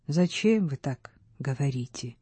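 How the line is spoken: Sad question. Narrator (Russian): печально спросил Трестка

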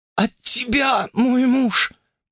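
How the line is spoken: Princess rasping hoarsely. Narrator (Russian): прохрипела царевна

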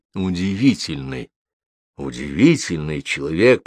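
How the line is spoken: Mutter. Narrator (Russian): пробормотал

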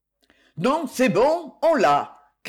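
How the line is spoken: Phone shouting. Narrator (French): cria le portable

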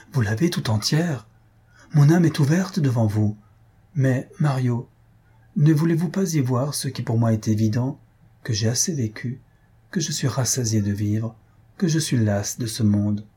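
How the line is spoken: Exclaimed. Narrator (French): s'écria Faustine

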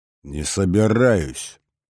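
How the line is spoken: Growled. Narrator (Russian): рыкнул я

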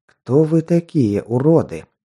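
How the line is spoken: Angry whisper. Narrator (Russian): зло прошептал

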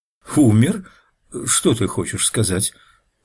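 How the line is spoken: Stammering question. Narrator (Russian): запинаясь, ответил вопросом на вопрос

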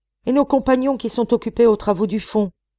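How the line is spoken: Several miners exclaiming. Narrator (French): s'écrièrent quelques-uns des mineurs

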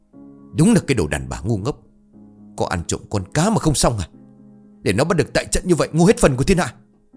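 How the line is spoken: Harsh scolding. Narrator (Vietnamese): Ông gằn giọng lên chửi

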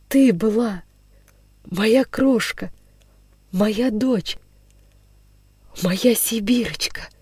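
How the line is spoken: Barely audible tearful whisper. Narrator (Russian): Прошептал он чуть слышно, и слезы хлынули из его глаз

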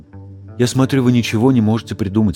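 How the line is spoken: Plain. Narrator (Russian): сказал Черный

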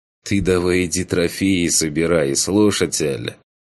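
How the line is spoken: Snorting explanation. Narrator (Russian): Хмыкнул я и пояснил

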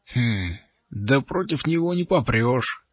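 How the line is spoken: Plain. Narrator (Russian): сказал третий голос

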